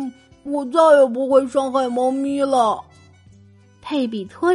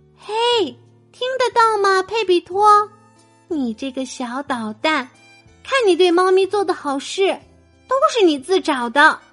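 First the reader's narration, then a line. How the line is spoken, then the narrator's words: Quiet. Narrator (Chinese): 马德琳垫着脚走进房间，小声的说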